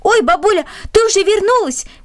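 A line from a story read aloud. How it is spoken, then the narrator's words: Shout. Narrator (Russian): крикнул он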